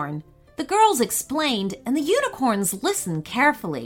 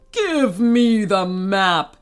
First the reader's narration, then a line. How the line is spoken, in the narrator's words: he bellowed